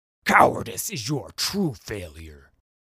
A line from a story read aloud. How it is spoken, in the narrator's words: the Hounded Lord snarled to answer Udyr's thought